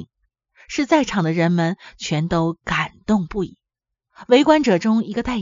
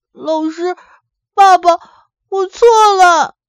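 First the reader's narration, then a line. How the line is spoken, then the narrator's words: Wailing sobs. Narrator (Chinese): 文波哇的一声哭着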